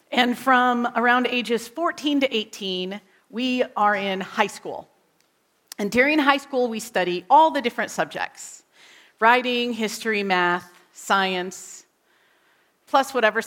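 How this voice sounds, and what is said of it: American accent. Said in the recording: “I grew up, if you can't tell by my accent, in the United States.”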